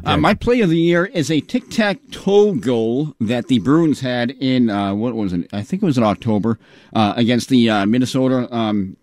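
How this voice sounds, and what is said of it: Regional American accent. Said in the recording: “That's a Hyde Park accent... a lot of people tell me I sound like I'm from the South or the Midwest. I have a lot of different sounds”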